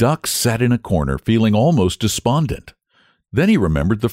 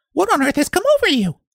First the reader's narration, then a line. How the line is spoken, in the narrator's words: the hen cried